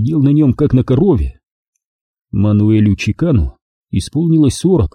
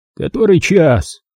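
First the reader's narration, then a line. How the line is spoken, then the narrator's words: Grumbling mumble. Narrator (Russian): пробурчал он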